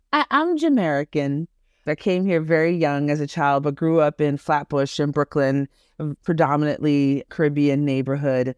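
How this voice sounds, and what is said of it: American-sounding accent, not Jamaican. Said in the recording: “You're born in Jamaica, but that accent isn't very yard, is it? ... Do you feel more American than Jamaican?”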